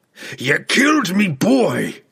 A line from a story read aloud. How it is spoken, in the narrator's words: the dwarf bellowed, Bruner's rage